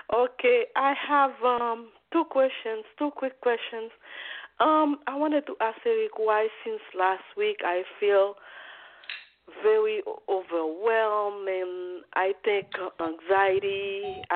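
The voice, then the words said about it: Sick, under-the-weather voice. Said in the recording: “I'm under the weather. That's why my voice is like that.”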